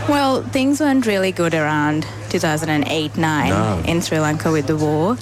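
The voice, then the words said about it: Australian accent with slight tinge. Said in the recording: “You sound Australian... There's a slight tinge of an accent”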